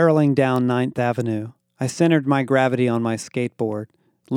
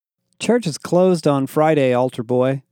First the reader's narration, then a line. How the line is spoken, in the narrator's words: I laughed